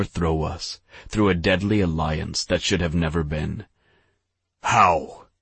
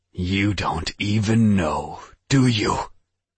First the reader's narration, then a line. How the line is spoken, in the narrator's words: He spat